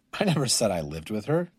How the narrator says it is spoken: he grumbled

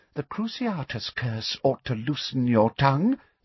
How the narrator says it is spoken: said Umbridge quietly

